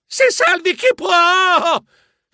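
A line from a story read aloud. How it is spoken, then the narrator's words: Shrieking. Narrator (Italian): Strillai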